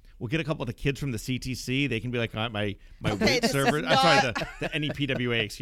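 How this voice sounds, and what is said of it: Usual voice. Nothing is said of it.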